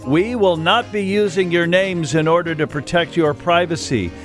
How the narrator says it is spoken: The receptionist yells out

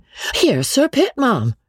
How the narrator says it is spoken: crying out in an alarmed tone

